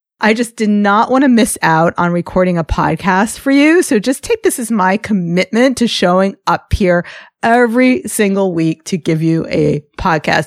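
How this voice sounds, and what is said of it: Gravelly, rough sick voice. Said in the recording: “how gravelly my voice is ... there's absolutely nothing sexy about the way I sound”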